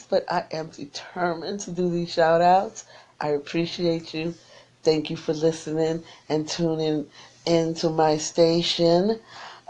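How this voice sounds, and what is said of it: Voice strained, fading. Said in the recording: “I think I'm losing my voice. ... I am losing my voice,”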